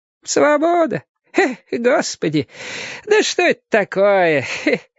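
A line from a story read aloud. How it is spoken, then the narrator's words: Laughing question. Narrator (Russian): спрашивала одноглазка и смеялась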